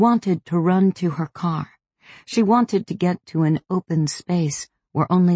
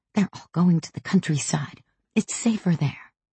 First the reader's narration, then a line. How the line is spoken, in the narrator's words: She whispered